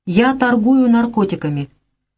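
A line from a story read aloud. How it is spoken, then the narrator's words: Flat even tone. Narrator (Russian): произнесла она ровным тоном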